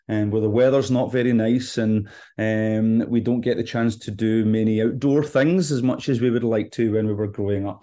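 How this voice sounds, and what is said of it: Scottish accent. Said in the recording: “You can probably tell from my accent that I'm not from Georgia. I'm originally from Scotland.”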